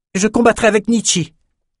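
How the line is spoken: Exclaimed. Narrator (French): s'écria Bannon

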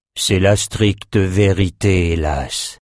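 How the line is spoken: Sigh. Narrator (French): soupira Nathan

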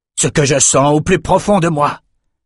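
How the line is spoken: Exclaimed. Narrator (French): s'écria Cyrus

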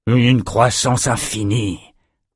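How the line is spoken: Grumbled. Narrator (French): grogna Franklin

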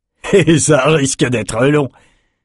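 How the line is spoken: Sneering laugh. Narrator (French): ricana Lars

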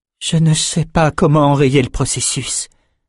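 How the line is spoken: Trembling voice. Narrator (French): dit-elle d'une voix chevrotante

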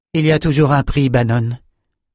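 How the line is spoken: Plain. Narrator (French): dit la magicienne

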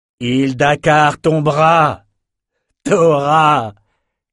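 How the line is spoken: Shouted without turning. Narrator (French): cria-t-il sans se retourner

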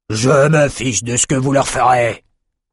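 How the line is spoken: Roar. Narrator (French): rugit Corr

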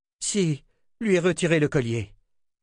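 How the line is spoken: Exclaimed. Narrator (French): s'écria Kara

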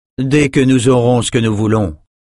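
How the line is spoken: Plain. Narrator (French): dit-il

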